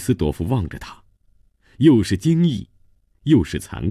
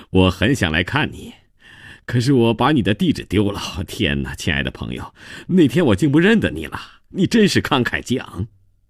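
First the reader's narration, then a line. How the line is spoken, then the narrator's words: Laughing while talking. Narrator (Chinese): 他一边说一边笑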